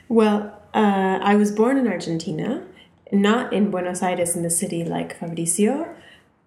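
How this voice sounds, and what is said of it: Very obvious non-native accent. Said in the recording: “You have a very obvious accent, especially to we English-speaking ears.”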